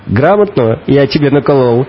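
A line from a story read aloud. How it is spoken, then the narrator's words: Joking, laughing. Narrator (Russian): Спросил водитель, сам же засмеялся своей шутке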